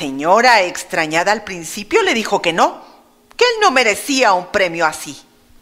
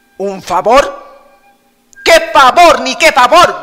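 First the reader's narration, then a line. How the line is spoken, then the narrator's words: Shouted by a wicked woman. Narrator (Spanish): gritó la malvada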